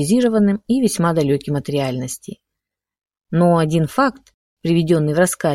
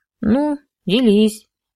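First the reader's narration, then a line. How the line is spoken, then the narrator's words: Lazy permission. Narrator (Russian): лениво разрешил Романенков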